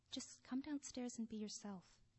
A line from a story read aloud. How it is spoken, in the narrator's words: whispered